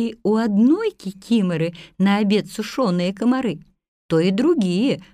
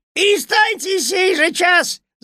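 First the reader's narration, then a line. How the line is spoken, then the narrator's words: Shouting. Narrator (Russian): закричал на них Кузька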